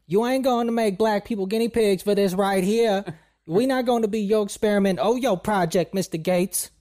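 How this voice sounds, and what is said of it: Impression of Diamond and Silk. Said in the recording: “that's a racist accent, that's almost spot on ... that's exactly what they sound like”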